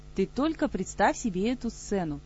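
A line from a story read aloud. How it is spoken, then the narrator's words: Cheerful. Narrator (Russian): весело продолжала Ольга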